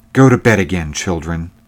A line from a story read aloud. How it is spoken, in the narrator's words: said she sharply